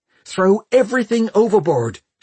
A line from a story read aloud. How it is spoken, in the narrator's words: she shouted at him